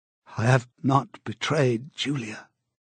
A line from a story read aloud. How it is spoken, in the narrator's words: he said